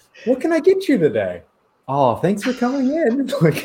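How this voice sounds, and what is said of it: Baby-talk customer service voice. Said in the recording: “your customer service voice is like baby talk, but for adults.”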